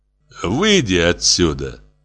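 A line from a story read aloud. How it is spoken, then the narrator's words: Quiet, angry. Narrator (Russian): Негромко, зло сказал Владимир Семенович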